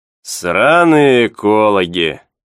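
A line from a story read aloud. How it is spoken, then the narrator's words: Pleased grumble, fat man. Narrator (Russian): с довольным видом проворчал толстяк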